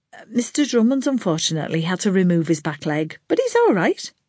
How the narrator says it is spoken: she added quickly

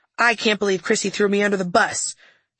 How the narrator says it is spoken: he yelled

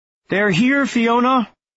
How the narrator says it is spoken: Lars called out

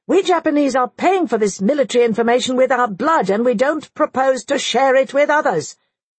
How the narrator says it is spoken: Belonging to a race hardly second to the Germans in sense of self-importance, the general yelled back

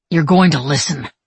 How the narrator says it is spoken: he growled

